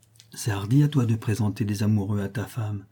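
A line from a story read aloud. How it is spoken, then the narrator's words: Unsteady voice. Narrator (French): dit-il d'une voix mal assurée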